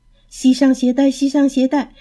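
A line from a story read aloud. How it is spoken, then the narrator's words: Repeated parrot squawking. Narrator (Chinese): 枕头鹦鹉也在一边连声地叫着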